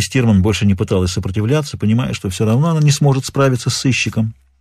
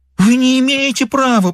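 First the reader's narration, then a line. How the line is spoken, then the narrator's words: Moan. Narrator (Russian): простонала она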